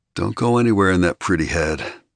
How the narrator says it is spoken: Ari murmured

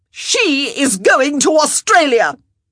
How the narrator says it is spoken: Araminta cried out

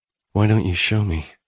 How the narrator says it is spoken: said breathlessly

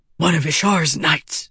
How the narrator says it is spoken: the madman whispered

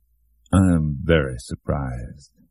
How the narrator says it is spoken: Shooter repeated in that heavy, even voice that now sounded like a hideous parody of calmness

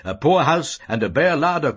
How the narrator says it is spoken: cried

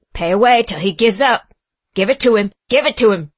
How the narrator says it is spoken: shouted Legree

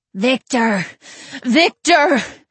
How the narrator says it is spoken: Robert's pleas were muffled by sobs

